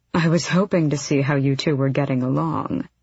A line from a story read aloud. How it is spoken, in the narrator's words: her uncle purred